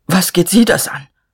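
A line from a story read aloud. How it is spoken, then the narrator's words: Stammering. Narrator (German): Er stammelte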